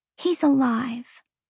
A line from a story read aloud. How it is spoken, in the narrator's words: Lahaba whispered